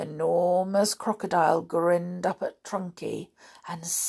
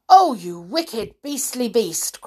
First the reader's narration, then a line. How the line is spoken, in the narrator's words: cried Trunky